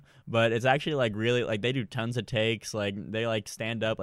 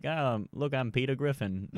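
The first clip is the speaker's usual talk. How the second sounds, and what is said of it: Peter Griffin cartoon voice impression. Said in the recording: “That was my Peter Griffin impression. ... Pretty good.”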